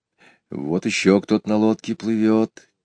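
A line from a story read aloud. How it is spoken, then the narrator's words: Quiet. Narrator (Russian): тихо сказал Петя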